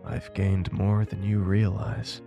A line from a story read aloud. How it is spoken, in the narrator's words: stated in a whisper